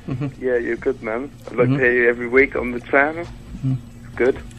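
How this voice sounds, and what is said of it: British accent. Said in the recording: “You do have the British accent... That accent is awesome... I like his accent.”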